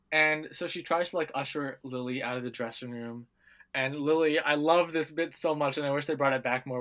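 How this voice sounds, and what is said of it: Usual voice. Nothing is said of it.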